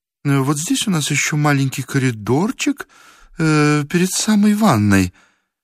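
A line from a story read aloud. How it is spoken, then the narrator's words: Shy babbling. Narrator (Russian): пролепетала Елена Сергеевна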